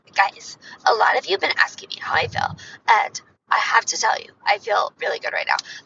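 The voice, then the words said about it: Noticeable vocal fry. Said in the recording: “my vocal fry is really making an appearance”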